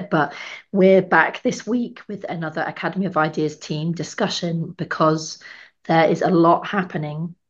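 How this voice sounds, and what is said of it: Hoarse, partly lost voice. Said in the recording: “as you can hear, I've lost my voice a little bit”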